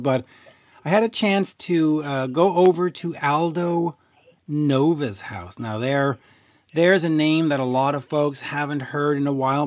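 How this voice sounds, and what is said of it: Strained, worn-out voice. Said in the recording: “My voice is doing the last stand. It's on its last legs”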